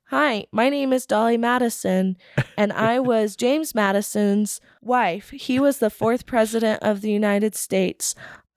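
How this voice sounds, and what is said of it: Flat monotone recitation. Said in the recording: “in my monotone voice”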